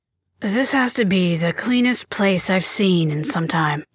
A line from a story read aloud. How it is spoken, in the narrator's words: Ray muttered